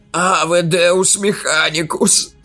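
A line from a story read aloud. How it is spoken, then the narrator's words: Groaning. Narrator (Russian): застонал он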